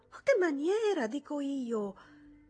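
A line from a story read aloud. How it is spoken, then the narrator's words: Reproachful exclamation. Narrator (Italian): Ida Jungmann esclamò in tono di rimprovero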